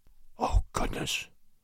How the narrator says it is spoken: someone whispered in Crosby's ear

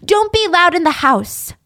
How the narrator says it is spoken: Florence would yell at the kids

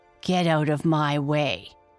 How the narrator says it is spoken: he snarled

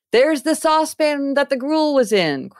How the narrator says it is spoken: cried Scrooge

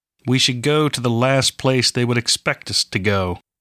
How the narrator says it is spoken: Benjen said

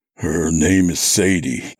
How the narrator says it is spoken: I said thickly, my mouth feeling like it was stuffed with cotton

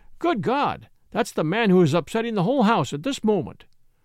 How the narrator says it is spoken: exclaimed the landlord

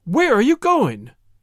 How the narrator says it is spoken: exclaimed her parents

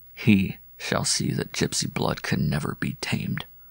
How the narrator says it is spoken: he murmured to himself between his teeth

